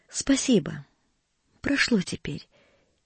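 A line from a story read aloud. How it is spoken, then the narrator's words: Barely audible voice. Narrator (Russian): чуть слышно проговорила она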